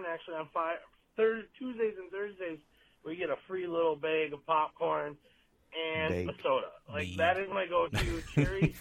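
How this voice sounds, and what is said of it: Midwestern American accent. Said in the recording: “That is that Midwestern accent, boy.”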